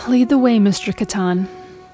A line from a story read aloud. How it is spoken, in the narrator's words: she said with a sigh